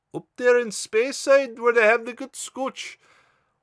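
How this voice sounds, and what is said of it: Poor put-on Scottish accent. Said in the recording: “Horrible accent. Horrible, horrible attempt at a Scottish accent.”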